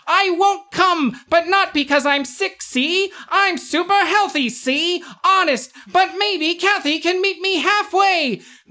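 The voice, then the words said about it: 1940s newsreel announcer voice. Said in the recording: “that's my 1940s announcer voice ... It's very similar to the David Lynch”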